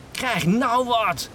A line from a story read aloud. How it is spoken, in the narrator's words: cried out